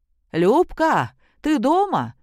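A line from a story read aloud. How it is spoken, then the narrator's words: Shouting. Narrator (Russian): крикнула провожающая их селянка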